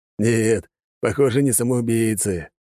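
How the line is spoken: Laughing. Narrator (Russian): засмеялся Алекс

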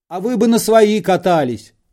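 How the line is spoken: Heated shouting. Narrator (Russian): запальчиво кричал шофер

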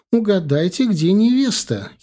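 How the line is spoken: Giggling. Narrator (Russian): хихикнула цыганка

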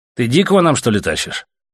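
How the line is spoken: Irritated question. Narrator (Russian): раздраженно спросил у прыща командир

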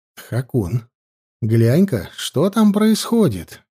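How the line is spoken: Quiet request. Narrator (Russian): тихо попросил

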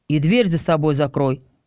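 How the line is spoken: Dry hint. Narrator (Russian): сухо намекнул Орион

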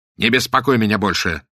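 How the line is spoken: Irritated snap. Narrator (Russian): огрызнулся он на Каузака

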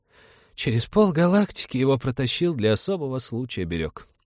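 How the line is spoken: Sigh. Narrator (Russian): вздохнул он

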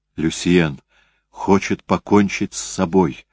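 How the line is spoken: Whispered. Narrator (Russian): шепнула она Европе

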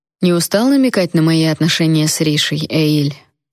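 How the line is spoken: Dry retort. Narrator (Russian): сухо парировал Райан

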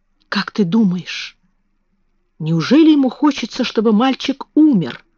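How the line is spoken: Whispered. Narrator (Russian): прошептала Мэри

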